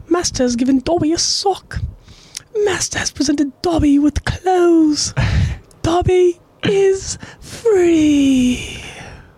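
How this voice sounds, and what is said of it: Dobby impression. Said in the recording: “Dobby from Harry Potter ... I nailed this impression”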